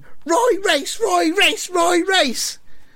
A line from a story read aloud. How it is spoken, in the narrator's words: The fans are all shouting